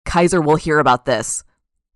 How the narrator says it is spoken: the bottle man shouted

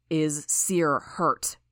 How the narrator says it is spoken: Defiant growled the words

